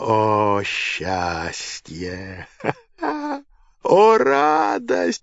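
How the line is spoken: Shouting. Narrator (Russian): кричал Нерон

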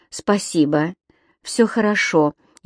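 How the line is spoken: Barely audible. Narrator (Russian): еле слышно отвечала Энсли

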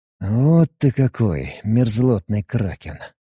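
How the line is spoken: Muttering under breath. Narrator (Russian): Пробурчал себе под нос

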